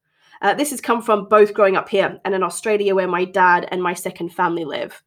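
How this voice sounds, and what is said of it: Slightly transatlantic accent. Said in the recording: “my accent is a little transatlantic, shall we say.”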